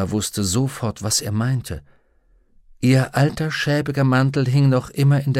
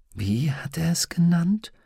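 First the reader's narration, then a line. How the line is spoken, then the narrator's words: Whispered. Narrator (German): flüsterte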